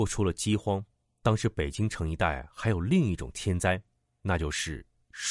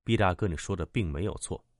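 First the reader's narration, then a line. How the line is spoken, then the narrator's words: Deep, steady voice. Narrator (Chinese): 小九沉声说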